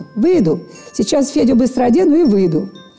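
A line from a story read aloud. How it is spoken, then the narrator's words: Shouting. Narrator (Russian): Она крикнула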